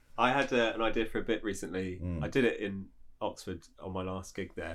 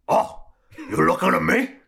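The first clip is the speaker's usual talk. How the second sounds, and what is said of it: De Niro doing Al Pacino. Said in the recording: “do an impression of two of my favourite actors, Rob Pacino and Al De Niro... like De Niro as Pacino”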